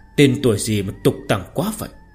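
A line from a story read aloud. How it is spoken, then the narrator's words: Soft sarcasm. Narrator (Vietnamese): Ninh Diêu khẽ mỉa mai một câu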